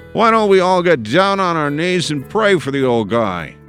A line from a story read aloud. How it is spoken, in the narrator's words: The voice bellowed from behind me